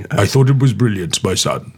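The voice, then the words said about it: Imitates another person's voice. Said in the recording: “my best Richard Burton impression... Not that great”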